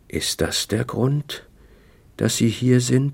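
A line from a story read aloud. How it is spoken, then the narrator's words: Slow whispered question. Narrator (German): fragte er langsam mit flüsternder Stimme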